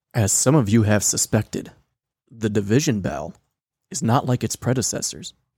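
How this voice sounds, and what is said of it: Dramatic narrator voice. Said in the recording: “doing a narration voice ... that really hurts the voice”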